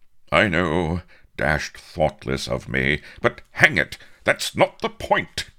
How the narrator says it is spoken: cried Avery angrily

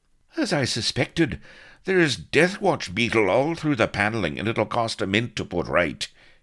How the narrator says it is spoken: he was improvising hastily

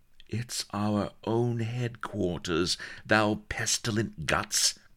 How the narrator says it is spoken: cried Bilbo impatiently

